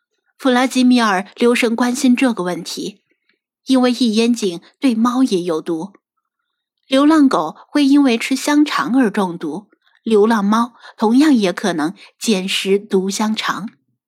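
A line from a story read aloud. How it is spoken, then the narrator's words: Trembling question. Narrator (Chinese): 白狗颤声问道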